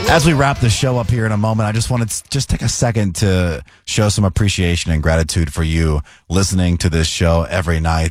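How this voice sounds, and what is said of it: Hoarse, worn-out voice. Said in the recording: “my voice is, you can hear it, it's pretty much shot. I have terrible allergies ... I can feel my voice fading”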